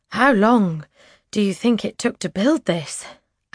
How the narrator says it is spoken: Ash pants

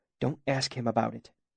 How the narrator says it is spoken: he hissed urgently

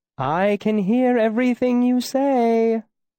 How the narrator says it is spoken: my mother called sweetly from inside

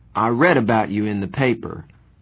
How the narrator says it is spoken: Randy said finally

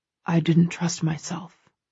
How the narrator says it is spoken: he says quietly

